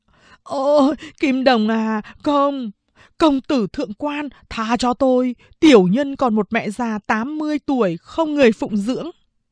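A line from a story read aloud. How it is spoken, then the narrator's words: Tearful stammering plea. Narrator (Vietnamese): Cái thằng đầu đầy mụn nhọt ấy, nước mắt như mưa, lắp bắp van xin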